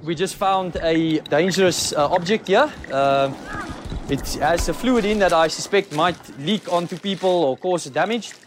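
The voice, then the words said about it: Mixed South African accent. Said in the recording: “I love his voice ... That accent, it's just so... It's a hard accent to try and impersonate because it's not like a straight New Zealand or a straight German ... it's got all these different pieces and parts in it ... it's this weird mashup ... he's from South Africa”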